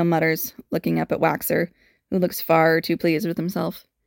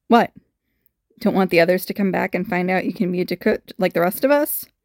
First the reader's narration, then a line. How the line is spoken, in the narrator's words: He's panting slightly